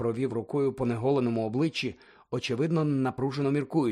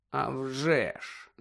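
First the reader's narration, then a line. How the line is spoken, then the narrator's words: Muttering. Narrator (Ukrainian): забурмотів Сіріус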